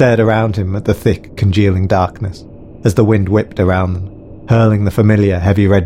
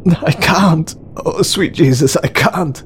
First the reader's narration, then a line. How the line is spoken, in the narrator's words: sobbed Alex